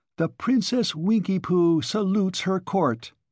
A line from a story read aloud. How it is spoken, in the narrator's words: cried to them